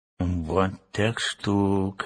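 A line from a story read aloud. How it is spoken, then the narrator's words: Muttering. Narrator (Russian): бормотал Урфин Джюс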